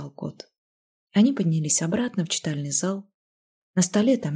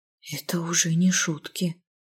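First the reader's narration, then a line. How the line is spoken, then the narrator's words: Whisper. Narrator (Russian): прошептала Лизавета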